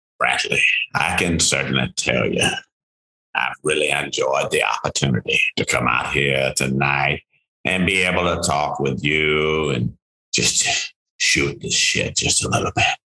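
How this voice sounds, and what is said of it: Imitates another person's voice. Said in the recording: “in my Morgan Freeman voice,”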